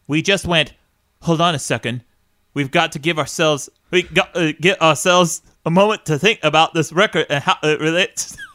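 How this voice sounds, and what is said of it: Irish accent impression. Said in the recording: “Is that a fucking impression, dude? ... Is this an Irish? ... Is this my Irish Bono?”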